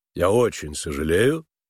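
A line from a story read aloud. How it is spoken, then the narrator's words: Cold male voice. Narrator (Russian): холодно сказал Финджи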